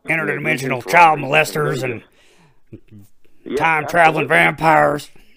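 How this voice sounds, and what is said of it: Imitates another person's voice. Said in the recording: “that's a good impression ... your Alex Jones is fucking on point”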